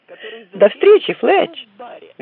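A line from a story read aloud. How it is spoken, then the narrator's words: Cheerful exclamation. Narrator (Russian): весело воскликнула Синди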